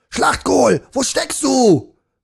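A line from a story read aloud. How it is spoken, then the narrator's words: Soldier bellowing. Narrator (German): brüllte einer der Soldaten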